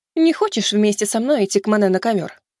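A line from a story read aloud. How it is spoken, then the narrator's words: Amused snort. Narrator (Russian): хмыкнула она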